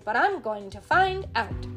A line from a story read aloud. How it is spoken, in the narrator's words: said Tootle crossly